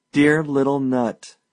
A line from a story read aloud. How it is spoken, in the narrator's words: he cried